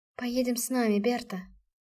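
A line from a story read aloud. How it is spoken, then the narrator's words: Affectionate, gentle. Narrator (Russian): произнесла она ласково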